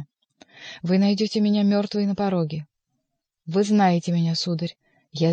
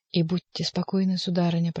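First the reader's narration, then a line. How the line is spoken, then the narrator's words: Whispered. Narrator (Russian): прошептал Бюсси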